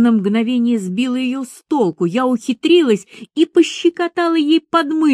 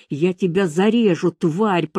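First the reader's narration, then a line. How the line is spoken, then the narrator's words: Hissed threat. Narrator (Russian): прошипела она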